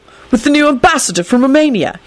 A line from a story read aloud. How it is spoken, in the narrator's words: he said triumphantly